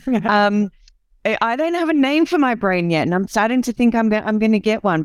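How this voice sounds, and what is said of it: Australian accent. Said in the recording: “yes, I'm an Aussie, so this is the the Aussie accent to the table”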